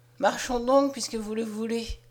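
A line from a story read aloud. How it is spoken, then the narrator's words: Sighed. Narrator (French): soupira-t-il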